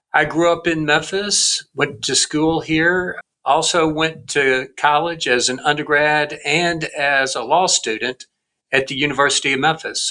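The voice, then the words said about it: Southern US accent. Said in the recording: “as you might be able to tell from my accent, I was born in the South in Memphis, Tennessee”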